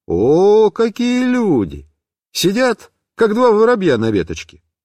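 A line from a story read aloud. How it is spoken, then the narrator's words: Cheerful. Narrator (Russian): весело сказал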